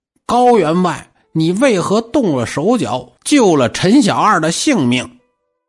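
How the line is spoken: Ghostly official shouting. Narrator (Chinese): 那鬼差喊了

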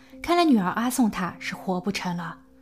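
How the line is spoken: Sighing. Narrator (Chinese): 他叹息道

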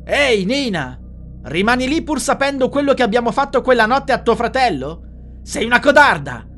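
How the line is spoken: Shout from outside. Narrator (Italian): gridò Claudia dall'esterno

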